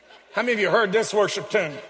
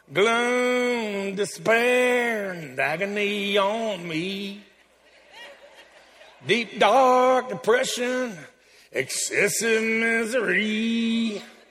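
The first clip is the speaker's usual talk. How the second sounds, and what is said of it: Sung with a put-on Southern drawl. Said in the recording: “I sing this with a southern drawl”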